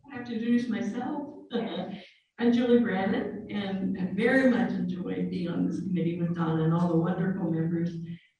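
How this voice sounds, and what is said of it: Hoarse, fading voice. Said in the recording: “I'm losing my voice, that's not good.”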